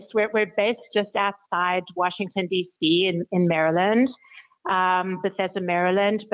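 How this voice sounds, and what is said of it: South African accent, slightly mixed. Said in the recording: “You've got this wonderful accent ... my accent is from South Africa, where I was born, but I grew up in Europe. So a bit of a mix ... not itself a Washington or Potomac accent. That's a South African ... Accent”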